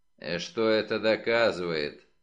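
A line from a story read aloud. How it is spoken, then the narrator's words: Grumbling. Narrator (Russian): проворчал Фред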